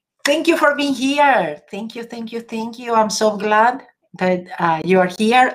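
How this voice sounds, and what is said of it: English with Argentinian accent. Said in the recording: “I always said English with an Argentinian accent.”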